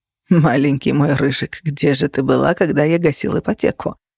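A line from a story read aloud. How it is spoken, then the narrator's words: Laughing. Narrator (Russian): рассмеялся Феникс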